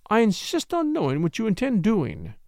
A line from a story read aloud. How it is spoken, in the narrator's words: she exclaimed